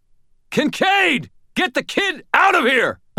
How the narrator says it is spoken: I screamed

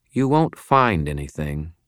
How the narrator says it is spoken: she said in a firm, cold tone

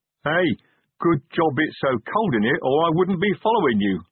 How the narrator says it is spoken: laughed Chrysophrase

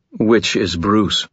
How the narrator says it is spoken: I would have expected her tone to hold annoyance, but if so, I didn't hear it

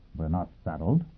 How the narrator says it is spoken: Yang Yovel said quietly

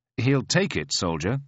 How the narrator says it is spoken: says

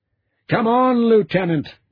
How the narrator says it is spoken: Garrett shouted

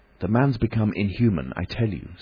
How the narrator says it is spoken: said Kemp

